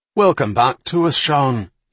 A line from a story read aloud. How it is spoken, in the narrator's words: shouted